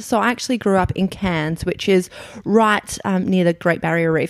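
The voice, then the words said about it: Broad Australian accent. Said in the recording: “I can tell by your accent ... I'm from Australia, for those who haven't guessed, my slightly bogan accent.”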